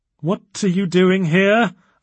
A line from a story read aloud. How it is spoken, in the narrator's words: asked Allison, as loudly as she dared